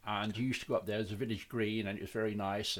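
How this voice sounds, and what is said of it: Birmingham (Brummie) English accent. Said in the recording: “I'm a Brummie. ... From Birmingham. ... I did get that from your accent, actually. ... it does make you sound a bit thick”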